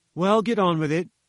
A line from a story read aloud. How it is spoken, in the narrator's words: said I